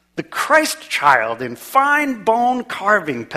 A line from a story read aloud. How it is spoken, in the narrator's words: Petrov exclaimed